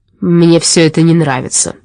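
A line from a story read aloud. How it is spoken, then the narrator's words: Grumbling. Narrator (Russian): заворчал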